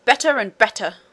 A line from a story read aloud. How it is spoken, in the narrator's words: cried the queen and the prince together